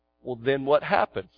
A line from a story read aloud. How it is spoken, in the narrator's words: Fred said